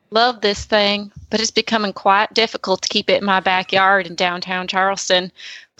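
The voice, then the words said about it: Stereotypical put-on Southern accent. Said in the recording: “I am from the North. My Southern accent is going to be stereotypical.”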